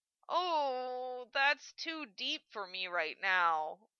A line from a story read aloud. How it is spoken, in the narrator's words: Hokuto moaned